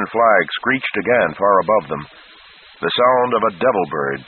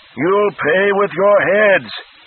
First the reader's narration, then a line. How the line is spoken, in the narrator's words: Flagg shrieked